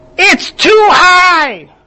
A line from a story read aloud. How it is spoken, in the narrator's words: yelled